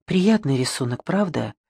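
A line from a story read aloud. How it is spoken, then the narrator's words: Hushed reverent whisper. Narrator (Russian): Она произнесла это приглушенным шепотом, каким непроизвольно разговаривают в местах молитвы или медитации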